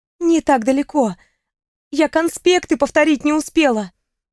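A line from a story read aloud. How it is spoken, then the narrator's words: Moaning. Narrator (Russian): простонала она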